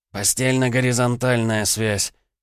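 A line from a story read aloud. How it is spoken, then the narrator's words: Snort. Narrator (Russian): хмыкнул Егор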